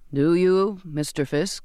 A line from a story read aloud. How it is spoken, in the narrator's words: the captain intoned